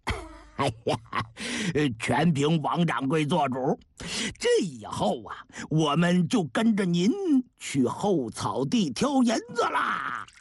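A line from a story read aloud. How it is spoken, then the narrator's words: Stout shopkeeper laughing. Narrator (Chinese): 一位胖掌柜笑着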